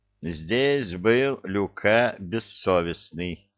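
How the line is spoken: Slow reading aloud. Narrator (Russian): медленно прочел Нефей

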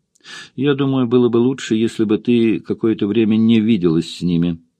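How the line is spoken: Calm reply. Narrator (Russian): спокойно ответил он

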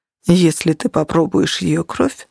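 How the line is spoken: Very calm. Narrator (Russian): очень спокойно произнес Нигер

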